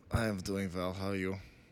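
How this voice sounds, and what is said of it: Weak put-on German accent. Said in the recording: “That's my lame attempt at a German accent”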